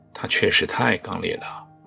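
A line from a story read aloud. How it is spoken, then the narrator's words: Deep sigh. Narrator (Chinese): 蒲公深深地叹了一口气，说道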